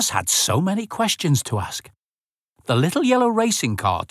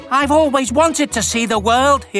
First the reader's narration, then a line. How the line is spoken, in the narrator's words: he exclaimed